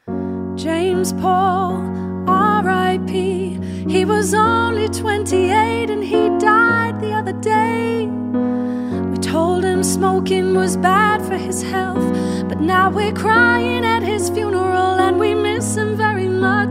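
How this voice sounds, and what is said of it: Slow, heartfelt sung delivery. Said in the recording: “that was too fast, so I'm going to do an impression of like a slow, bit more heartfelt”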